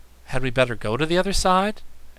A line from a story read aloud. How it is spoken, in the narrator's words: asked Button Bright anxiously